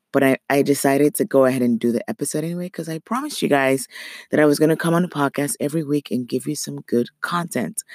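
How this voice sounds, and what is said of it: Raspy voice. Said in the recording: “my voice is so raspy.”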